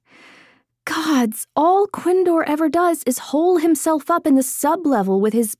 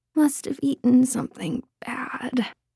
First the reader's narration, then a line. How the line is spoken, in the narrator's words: Lena mumbled, not able to say more as she retched again